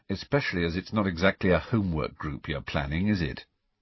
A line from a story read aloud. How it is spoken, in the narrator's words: said Harry dryly